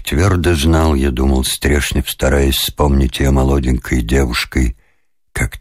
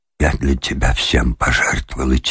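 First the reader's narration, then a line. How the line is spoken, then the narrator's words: Quiet, trembling. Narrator (Russian): тихо сказала она, и губы ее опять задрожали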